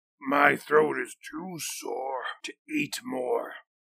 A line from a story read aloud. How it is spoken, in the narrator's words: croaked